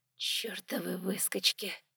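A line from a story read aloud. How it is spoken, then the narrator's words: Quiet smiling curse. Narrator (Russian): Тихо и с улыбкой выругалась леди Камвидиш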